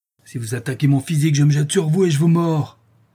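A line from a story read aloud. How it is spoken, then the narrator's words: Exclaimed. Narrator (French): s'écria Madame Pipelet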